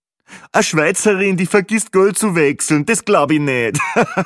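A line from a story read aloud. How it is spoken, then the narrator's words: Joking remark. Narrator (German): der zweite lustige Kommentar von Peppi Gruber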